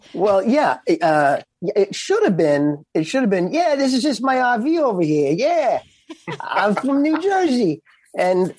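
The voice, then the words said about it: Put-on character accent. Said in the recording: “the accent the whole time ... in your accent”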